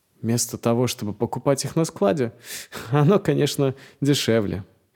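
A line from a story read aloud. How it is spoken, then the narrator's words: Laughing, joking. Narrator (Russian): Я засмеялся и, подхватив его остроту, сказал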